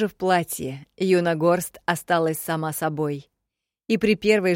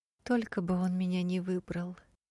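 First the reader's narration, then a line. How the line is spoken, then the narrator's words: Doomed sigh, flower. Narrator (Russian): Неожиданно обреченно вздохнула серебристая лилия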